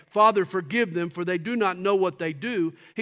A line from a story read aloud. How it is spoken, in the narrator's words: he was praying